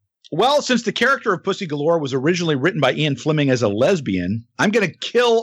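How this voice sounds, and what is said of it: Usual voice. Nothing is said of it.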